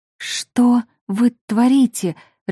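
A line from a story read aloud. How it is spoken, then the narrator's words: Confused babbling. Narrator (Russian): растерянно пролепетала я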